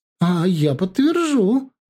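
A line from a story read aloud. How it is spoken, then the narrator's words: Joyful. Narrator (Russian): радостно она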